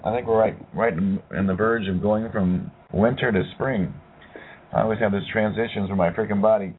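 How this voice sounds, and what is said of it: Strained, fading voice. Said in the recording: “I'm losing my voice, man.”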